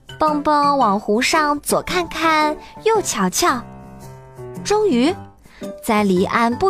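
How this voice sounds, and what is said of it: Usual voice. Nothing is said of it.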